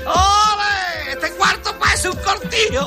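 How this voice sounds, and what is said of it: Cartoon character with Andalusian accent. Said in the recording (Spanish): “Con ese acento además andaluz”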